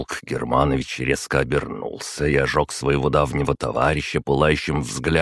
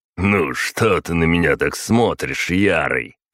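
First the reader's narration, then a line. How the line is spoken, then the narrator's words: Snorting remark. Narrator (Russian): хмыкнул Варзухин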